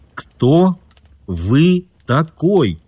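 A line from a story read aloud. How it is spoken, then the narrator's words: Slow and distinct. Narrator (Russian): медленно, отчетливо проговорил Кит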